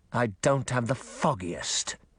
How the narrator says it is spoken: he growled

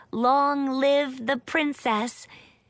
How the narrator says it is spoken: everyone cried

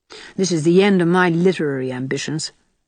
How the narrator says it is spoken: she said bitterly

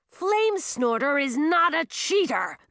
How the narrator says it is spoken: Millie growled as the pressure filled her head and made her spine feel like it was burning

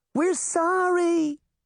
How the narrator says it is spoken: Daphne shouted to them

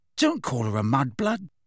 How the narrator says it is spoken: said Ron and Ginny together, very angrily

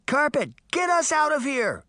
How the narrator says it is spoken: Sabrina shouted

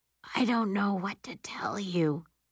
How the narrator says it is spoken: she says, her voice still hoarse

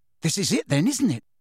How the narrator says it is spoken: said Ron excitedly

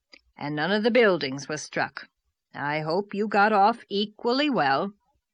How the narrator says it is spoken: said Marilla grimly

